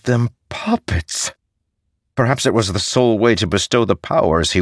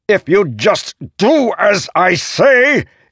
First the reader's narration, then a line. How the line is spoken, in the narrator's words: Ishu shouted